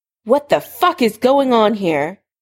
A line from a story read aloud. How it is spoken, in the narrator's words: Tobias Snape shouted at both of them